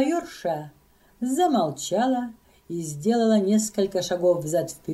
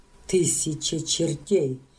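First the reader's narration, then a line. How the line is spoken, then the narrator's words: Woman's quiet laughing. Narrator (Russian): сказала она и тихо засмеялась, как бы про себя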